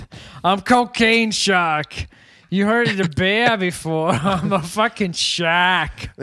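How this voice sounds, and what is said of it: Put-on Boston accent. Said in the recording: “I keep doing a Boston accent”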